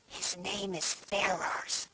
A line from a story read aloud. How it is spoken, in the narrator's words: said, in a very audible whisper